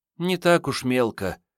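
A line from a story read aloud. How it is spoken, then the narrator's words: Sad. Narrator (Russian): печально сказала Мариетта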